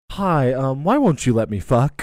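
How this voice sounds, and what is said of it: Mocking stereotyped nice-guy voice. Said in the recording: “your best impression of a nice guy”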